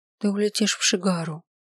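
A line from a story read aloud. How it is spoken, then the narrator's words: Quiet. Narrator (Russian): тихо произнесла я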